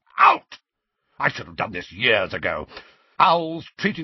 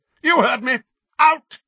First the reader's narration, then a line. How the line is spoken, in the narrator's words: Uncle Vernon bellowed